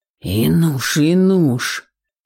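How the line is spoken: Hoarse rasp. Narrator (Russian): захрипел Горинов

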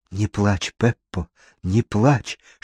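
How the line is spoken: Soothing whisper. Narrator (Russian): шептал Паскуале

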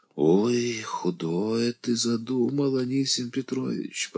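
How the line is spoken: Moan. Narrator (Russian): простонал Дося

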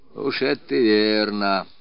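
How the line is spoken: Dejected agreement. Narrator (Russian): уныло соглашался турка

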